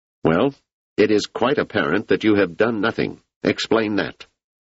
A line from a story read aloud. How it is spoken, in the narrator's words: The leader said sharply